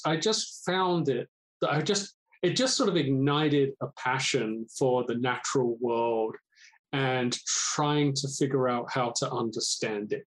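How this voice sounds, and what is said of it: British accent, London area. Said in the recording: “your accent sounds like you're perhaps not from Washington State ... I was born and raised in the UK, specifically mostly around London.”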